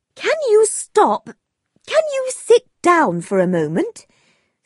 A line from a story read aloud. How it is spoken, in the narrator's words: said his mother crossly